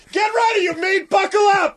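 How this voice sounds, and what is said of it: Yelling loudly. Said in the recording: “I'm yelling at it ... you yell at everything ... I do yell at everything”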